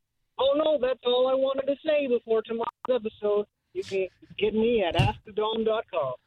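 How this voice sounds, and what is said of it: Poor imitation of another person's voice. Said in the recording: “That stunk. ... That was horrible. ... That's a bad impression.”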